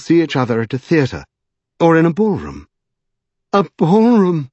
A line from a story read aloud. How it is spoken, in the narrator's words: exclaimed Lady Pole in horror